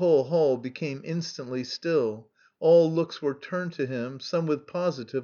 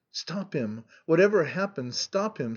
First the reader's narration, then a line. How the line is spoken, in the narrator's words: she whispered in agitation